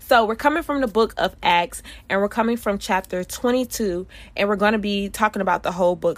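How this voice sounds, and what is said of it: Stuffy, congested voice. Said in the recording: “you woke up and you was kind of stuffy? That's how I feel right now. So if I sound stuffy,”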